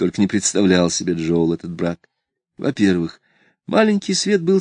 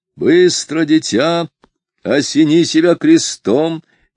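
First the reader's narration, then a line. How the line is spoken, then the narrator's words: Booming command. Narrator (Russian): велел трубным голосом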